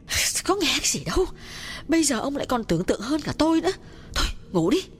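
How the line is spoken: Mildly irritated woman. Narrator (Vietnamese): Bà Lý gắt nhẹ

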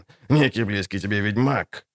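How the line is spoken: Short chuckle. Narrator (Russian): хохотнул Джан Карди

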